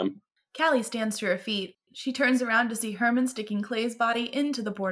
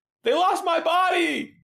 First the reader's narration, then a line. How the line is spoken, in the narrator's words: Wesley yells with him